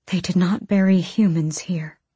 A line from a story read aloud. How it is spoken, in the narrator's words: Irene whispered